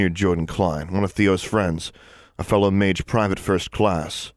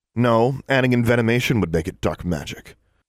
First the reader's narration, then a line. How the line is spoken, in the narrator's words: said, in a threatening tone